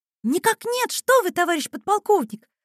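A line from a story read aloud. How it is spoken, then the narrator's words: Exclamation. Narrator (Russian): воскликнула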